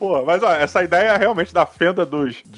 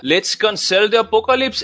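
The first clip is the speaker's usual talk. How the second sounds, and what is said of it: Slight put-on accent. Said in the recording (Portuguese): “O pequeno sotaque aí.”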